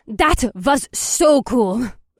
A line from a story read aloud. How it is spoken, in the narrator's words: Astrid cried out